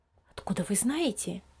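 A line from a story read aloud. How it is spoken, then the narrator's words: Hushed question. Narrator (Russian): вполголоса спросила мама Лиза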